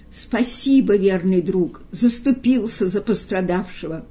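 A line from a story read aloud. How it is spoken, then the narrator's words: Tragic exclamation. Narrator (Russian): бегемот воскликнул трагически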